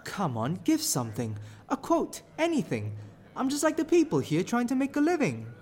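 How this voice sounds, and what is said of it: South London Lambeth accent. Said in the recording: “With that accent, you are not from this borough of London at a guess. I'd say perhaps Lambeth. You are not from the East End.”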